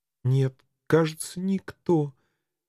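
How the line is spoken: Barely audible babble. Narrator (Russian): еле слышно пролепетала она

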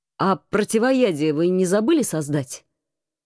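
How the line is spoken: Growl. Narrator (Russian): С состраданием рыкнул командор

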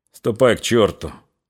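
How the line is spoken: Cold. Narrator (Russian): холодно сказал Григорий

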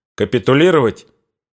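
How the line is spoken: Sharp interrupting question. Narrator (Russian): спросил резко, прерывая его Корнилов

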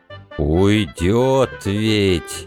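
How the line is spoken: Drawling. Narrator (Russian): протянул Митька

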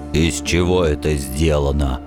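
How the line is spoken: Gruff mutter. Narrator (Russian): наконец буркнул он

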